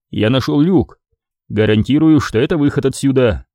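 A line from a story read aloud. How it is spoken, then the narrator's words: Confident, reassuring declaration. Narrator (Russian): уверенным голосом заявил Крис, дабы не обрекать Шеву на мысли о безнадежности их положения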